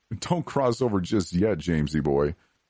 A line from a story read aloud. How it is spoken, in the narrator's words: laughed